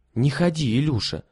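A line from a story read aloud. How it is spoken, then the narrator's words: Exclaiming. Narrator (Russian): воскликнула Лиля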